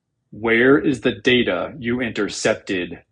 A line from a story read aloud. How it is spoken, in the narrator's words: Vader rumbled dangerously